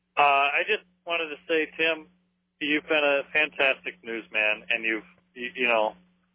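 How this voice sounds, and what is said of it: Congested, beaten-down voice with a cold. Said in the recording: “I've got a cold ... if I sound a little beaten down”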